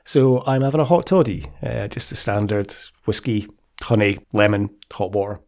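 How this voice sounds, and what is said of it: Croaky voice from a cold. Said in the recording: “I'm full of the cold at the moment. As you might be able to tell from my voice, it's a little bit croaky. So yeah, I've got a cold.”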